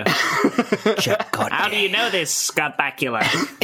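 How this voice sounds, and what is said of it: Impression of Captain Janeway's voice. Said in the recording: “doing an impression of Janeway from Voyager”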